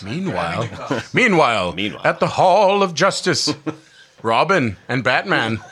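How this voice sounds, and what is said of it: Ted Knight Super Friends narrator impression. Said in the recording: “that was Ted Knight that did that voice... Ted Knight was the Super Friends”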